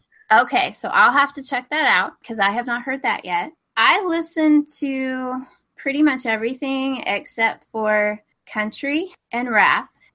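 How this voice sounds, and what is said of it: Texas accent. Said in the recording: “I'm from Texas, in case anybody can't tell from the accent.”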